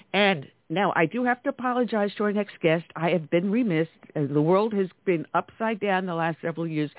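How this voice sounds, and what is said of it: Slightly nasal, congested voice. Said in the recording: “I'm battling a little bit of a cold right now, so if I sound a little nasally”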